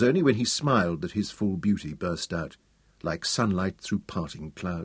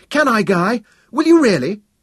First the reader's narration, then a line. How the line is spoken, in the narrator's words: Dorian exclaimed